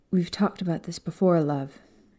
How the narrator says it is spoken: Doria sighed, looking regretful and angry about the situation

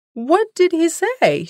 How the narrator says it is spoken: shouted a chorus of voices

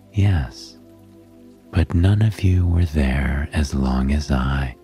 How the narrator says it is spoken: Hestia replied calmly

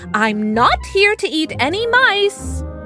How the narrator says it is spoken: he would announce loudly

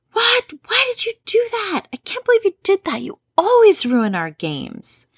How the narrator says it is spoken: one of the sisters yelled

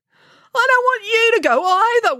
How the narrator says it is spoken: wailed Binky

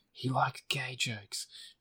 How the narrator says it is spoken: the person in the comedy troupe says, whispering to the others

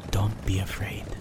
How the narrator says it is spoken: whispered Minekin

